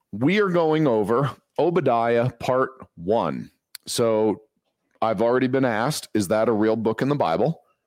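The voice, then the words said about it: Strained, worn-out voice. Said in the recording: “my voice is a little shot. So, bear with me. I'm not sure how I'm going to sound or how loud I'm going to be able to talk”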